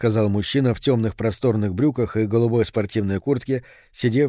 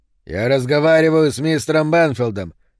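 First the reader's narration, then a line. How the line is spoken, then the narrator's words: Barking. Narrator (Russian): рявкнул Рис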